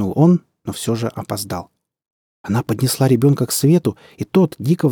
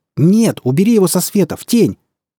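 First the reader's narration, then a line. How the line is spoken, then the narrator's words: Terrifying shout. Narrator (Russian): закричал Дэвид жутко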